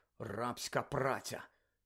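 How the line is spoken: Mutter. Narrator (Ukrainian): Гаррі виразно почув, як вона пробурмотіла

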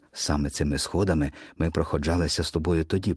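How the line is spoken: Old woman whispering. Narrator (Ukrainian): прошепотіла бабуся

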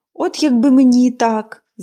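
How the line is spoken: Sigh. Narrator (Ukrainian): зітхнула Поліанна

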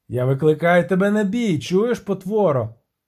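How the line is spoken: Cicada shouting. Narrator (Ukrainian): крикнув цикада

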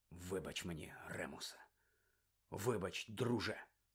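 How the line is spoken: Sighed. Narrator (Ukrainian): зітхнув Блек

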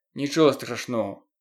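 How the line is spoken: Muttered. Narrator (Ukrainian): пробурмотів Стен

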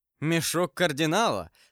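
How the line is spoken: Laughing loudly. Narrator (Russian): сказал с хохотом Д'Артаньян

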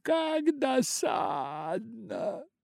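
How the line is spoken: Exclaiming. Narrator (Russian): воскликнула она

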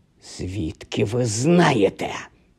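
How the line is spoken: Hissed. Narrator (Ukrainian): зашипіла вона

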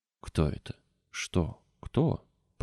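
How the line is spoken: Mumbled. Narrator (Russian): пробормотал

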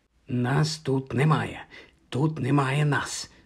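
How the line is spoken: Angry whisper. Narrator (Ukrainian): сердито шепотіла

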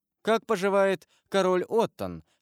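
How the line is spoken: Very cheerful question. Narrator (Russian): спросил самым веселым голосом Альбер

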